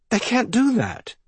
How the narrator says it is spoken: the cousin cried again

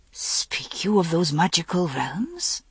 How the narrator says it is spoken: Accolon asked her, almost in a whisper

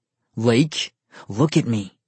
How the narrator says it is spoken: his voice commanded

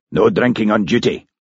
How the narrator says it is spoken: he snapped

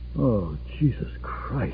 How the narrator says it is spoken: Just said softly

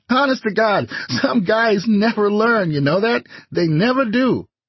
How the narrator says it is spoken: Ray said, laughing

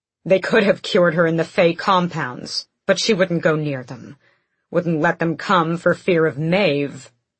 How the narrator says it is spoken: he spat the name

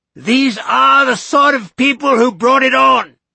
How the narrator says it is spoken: she shouted

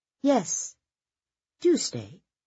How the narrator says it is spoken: Colette said sweetly

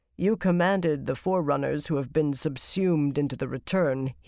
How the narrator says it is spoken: he replied calmly

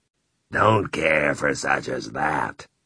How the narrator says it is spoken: Ralph said in his clotted voice

